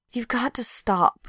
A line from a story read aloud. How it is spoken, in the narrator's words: Pat mumbled, not lifting her head